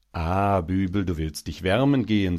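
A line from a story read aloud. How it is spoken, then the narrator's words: Smooth voice. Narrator (German): sagte er mit geschmeidiger Stimme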